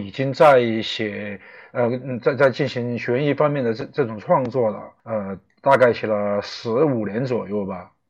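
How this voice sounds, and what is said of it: Chongqing-accented Sichuan Mandarin. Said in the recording (Chinese): “大家听这个口音能知道啊，重庆人...北京话对阵川普”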